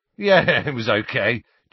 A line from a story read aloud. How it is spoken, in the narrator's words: chuckled Dean